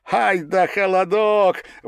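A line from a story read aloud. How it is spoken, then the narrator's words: Admiring shout. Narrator (Russian): восхищенно крикнул кто-то из казаков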